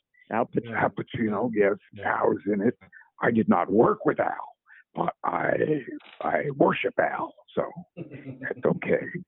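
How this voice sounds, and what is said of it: Al Pacino impression. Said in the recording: “great Pacino impression”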